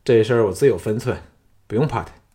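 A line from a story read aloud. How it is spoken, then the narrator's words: Calm indifferent reply. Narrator (Chinese): 淡淡应道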